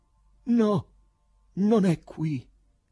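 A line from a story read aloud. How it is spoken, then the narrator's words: Distressed exclamation. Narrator (Italian): esclamò con afflizione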